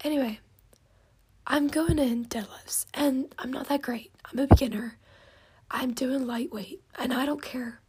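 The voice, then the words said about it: Strained, failing voice. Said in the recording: “My voice is just getting worse the more that I talk ... my voice is like going”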